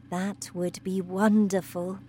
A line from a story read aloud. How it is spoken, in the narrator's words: said Miss Honey softly